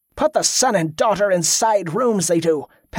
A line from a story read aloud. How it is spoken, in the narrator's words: Padraic snapped